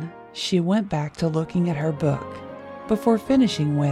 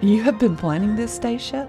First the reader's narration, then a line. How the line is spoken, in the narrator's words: He laughed